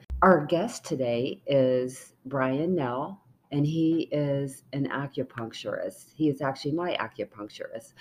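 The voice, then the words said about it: Hoarse voice from a cold. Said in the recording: “lost my voice, but I have a cold.”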